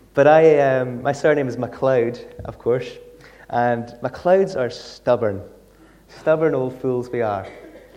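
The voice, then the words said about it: Mild Scottish Isle of Lewis accent. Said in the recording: “I am from the Isle of Lewis, hence my accent. I don't have a very strong Lewis accent”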